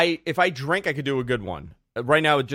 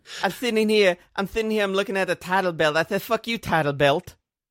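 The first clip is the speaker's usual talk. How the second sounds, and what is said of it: Tyson impression drifting into Dusty Rhodes. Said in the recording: “your Tyson impression ... It's so good. ... Your Tyson is I think when you start drifting, it turns into Dusty. ... just drifting into Dusty. Everything just drifts into Dusty Rhodes.”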